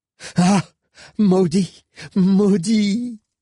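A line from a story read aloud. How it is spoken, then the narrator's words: Moaning exclamation. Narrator (French): s'écria Odéarde sur un ton plus gémissant que vindicatif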